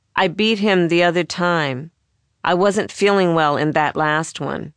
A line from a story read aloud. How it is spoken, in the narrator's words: he said